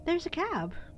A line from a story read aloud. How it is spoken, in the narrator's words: exclaimed Janet